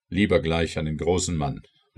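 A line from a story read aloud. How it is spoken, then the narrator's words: Called out. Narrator (German): rief der Lord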